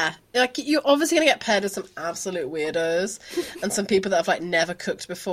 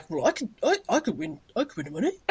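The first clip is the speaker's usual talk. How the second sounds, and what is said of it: Imitation of a man's voice. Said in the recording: “my impression of men”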